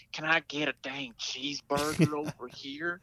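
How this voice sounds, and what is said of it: Exaggerated country American accent. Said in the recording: “the easiest accents for them to do is just throw some country on it, make us sound fantastic ... an English person doing an American accent”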